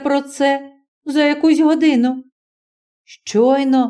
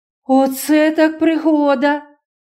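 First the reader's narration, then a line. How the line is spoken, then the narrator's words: Princess exclaims. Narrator (Ukrainian): вигукнула принцеса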